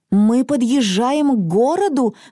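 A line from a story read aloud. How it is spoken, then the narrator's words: Sudden shout. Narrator (Russian): вдруг закричала Мона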